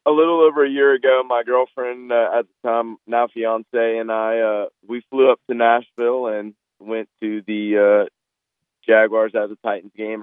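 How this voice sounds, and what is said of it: Hoarse, partly lost voice. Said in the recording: “Part of my voice, I lost my voice at the game.”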